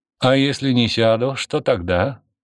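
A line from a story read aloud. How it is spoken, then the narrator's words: Slightly mocking question. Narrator (Russian): спросил Константин чуть насмешливо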